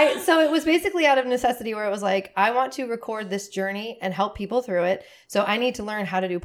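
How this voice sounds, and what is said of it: Usual voice. Nothing is said of it.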